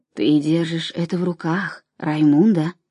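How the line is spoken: Whisper. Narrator (Russian): прошептал Тио Хорже

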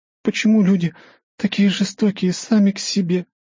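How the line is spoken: Whimpering. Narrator (Russian): хныкала она

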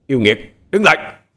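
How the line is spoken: Loud commanding shout. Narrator (Vietnamese): Ông thầy thâm dông miệng quát lớn ra lệnh

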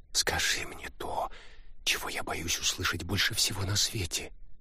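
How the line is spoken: Tearful whisper. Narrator (Russian): прошептала Лариса, не вытирая выступившие на глазах слезы

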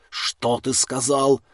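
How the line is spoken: Barked. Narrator (Russian): рявкнул

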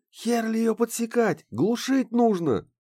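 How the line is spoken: Shouting. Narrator (Russian): крикнул Ларс

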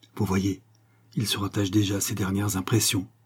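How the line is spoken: Spoken quietly. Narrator (French): lui dit tout bas

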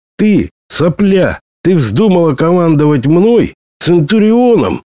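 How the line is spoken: Roar from behind. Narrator (Russian): взревел за спиной итальянец

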